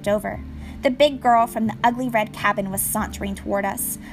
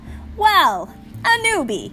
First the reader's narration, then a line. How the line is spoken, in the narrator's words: a husky voice yelled